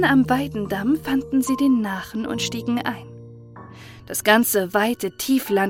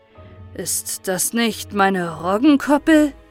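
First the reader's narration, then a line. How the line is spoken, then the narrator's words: Calling out. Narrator (German): rief er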